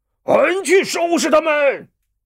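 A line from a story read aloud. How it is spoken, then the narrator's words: Loud shout. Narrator (Chinese): 李逵 大叫一声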